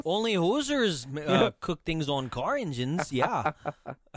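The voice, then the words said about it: Put-on accent. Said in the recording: “best accent I've ever done”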